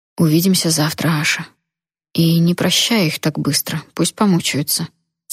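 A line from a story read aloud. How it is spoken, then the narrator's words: Soft whisper in ear. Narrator (Russian): тихо прошептал мне на ухо Джун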